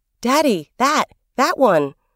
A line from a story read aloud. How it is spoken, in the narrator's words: my daughter suddenly cried